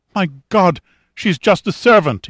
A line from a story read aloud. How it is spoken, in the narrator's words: cried, his English accented with his native Italian